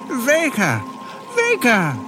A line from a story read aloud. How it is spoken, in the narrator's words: exclaimed Brick joyously